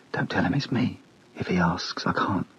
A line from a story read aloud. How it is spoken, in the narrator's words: she whispered